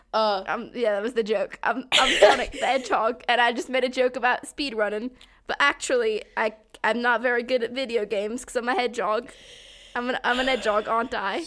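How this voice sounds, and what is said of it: Bad put-on British YouTuber accent. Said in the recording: “that is the worst goddamn British accent I've ever heard ... it's not just British, it's sort of like the YouTuber accent ... it's sort of like the British YouTuber accent”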